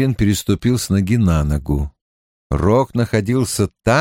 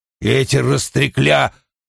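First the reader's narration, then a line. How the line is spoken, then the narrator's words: Grumbling. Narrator (Russian): заворчал Уна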